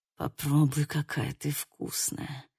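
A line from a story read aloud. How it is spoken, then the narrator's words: Moaning. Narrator (Russian): простонал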